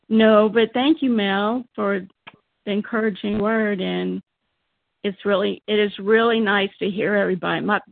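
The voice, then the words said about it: Weak, failing voice. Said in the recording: “My voice is a little, my voice is giving out”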